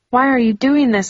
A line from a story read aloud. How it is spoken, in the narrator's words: I cried